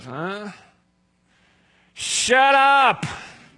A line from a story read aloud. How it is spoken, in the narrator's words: Like a dad yelling at his kids